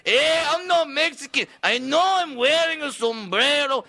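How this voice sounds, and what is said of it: Exaggerated Mexican accent. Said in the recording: “Mexicana accent ... Talking like El Guapo from the Three Amigos”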